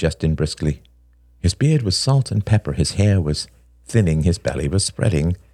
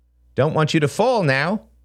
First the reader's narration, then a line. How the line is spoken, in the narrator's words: he said a little too loudly